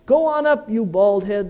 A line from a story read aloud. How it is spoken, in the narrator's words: said